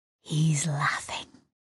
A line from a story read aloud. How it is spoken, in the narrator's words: Sissek whispered